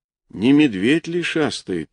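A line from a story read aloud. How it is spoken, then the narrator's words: Quiet, elder man. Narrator (Russian): тихо сказал старшой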